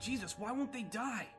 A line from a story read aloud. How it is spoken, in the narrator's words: Steve screamed behind her, a strain of disbelief and terror in his voice